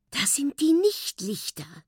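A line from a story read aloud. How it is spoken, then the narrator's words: Excited whisper. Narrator (German): flüstert er aufgeregt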